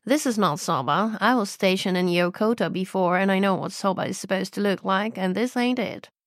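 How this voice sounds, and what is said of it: Put-on American accent. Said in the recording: “Apologies for my American accent.”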